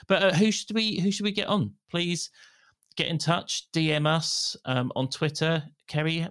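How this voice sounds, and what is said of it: Usual voice. Nothing is said of it.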